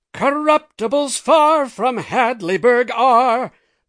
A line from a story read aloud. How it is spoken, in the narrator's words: The house roared that one, too